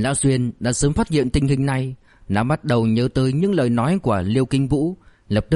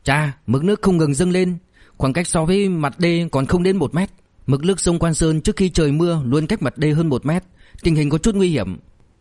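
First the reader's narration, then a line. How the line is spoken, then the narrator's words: Sudden urgent cry. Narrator (Vietnamese): Điền Tiểu Xuyên chợt kêu lên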